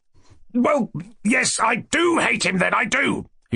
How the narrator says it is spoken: he shouted suddenly with extraordinary fury

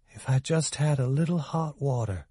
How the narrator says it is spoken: she said in a weak, serene voice without particular hope

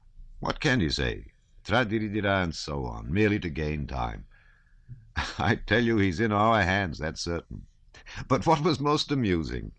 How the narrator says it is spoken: he continued with a sudden good-natured laugh

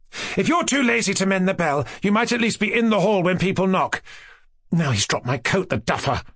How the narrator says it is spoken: said angrily

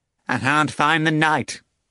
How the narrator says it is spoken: the cat replied from under the bed, in a choked and phony voice

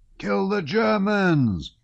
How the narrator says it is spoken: shouted one

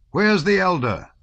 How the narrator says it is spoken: demanded Rostov in a loud voice

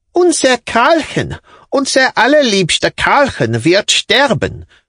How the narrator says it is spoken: howled his wife

